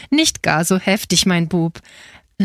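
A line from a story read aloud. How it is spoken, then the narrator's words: Laughing. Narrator (German): lachte Frau Marianne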